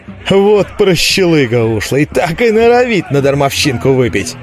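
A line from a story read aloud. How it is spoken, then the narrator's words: Laughing crowd. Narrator (Russian): засмеялись из толпы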